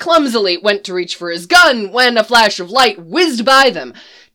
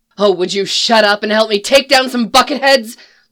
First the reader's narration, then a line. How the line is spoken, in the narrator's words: Leia growled